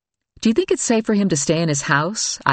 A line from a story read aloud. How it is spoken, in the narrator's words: I asked Joe